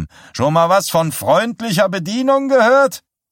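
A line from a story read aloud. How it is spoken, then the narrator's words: Woman shrieking. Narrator (German): kreischte eine der Schlampen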